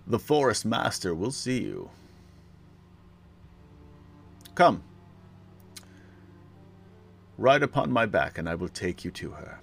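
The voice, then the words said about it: Deep character voice. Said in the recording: “says a deep voice”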